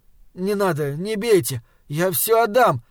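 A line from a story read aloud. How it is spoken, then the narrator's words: Pleading. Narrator (Russian): взмолился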